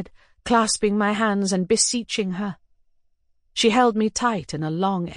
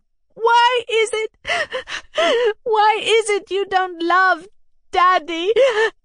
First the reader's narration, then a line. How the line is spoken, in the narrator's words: my sobs prevented my finishing